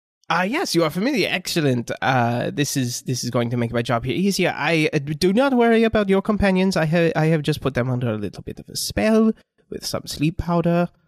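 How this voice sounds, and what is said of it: Shifting put-on fantasy character accents. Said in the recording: “slipping between like eight different accents. It's fine. It's fantasy. You don't know where this guy's from.”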